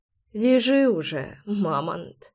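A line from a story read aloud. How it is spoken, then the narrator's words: Whispered. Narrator (Russian): прошептала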